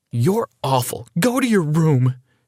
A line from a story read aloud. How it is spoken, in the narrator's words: cried